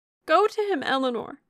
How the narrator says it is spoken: she cried as soon as she could speak

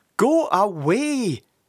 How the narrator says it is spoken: shouted Sid sternly

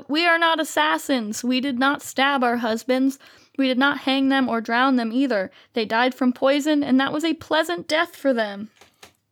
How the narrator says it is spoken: she cried out

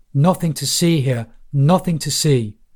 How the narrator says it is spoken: shouting at the bystanders

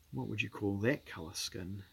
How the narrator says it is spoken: murmured Carly O'Dowd

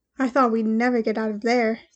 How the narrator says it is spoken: said Ashling with a big sigh, but that was all for show

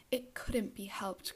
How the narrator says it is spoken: cried Daisy with a tense gaiety

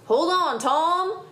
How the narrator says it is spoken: shouted Grandude

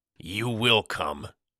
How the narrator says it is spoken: asserted, growling his displeasure

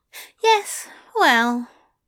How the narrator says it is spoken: Aziraphale sighed

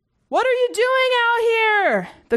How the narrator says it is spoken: the Gormak inside shouted

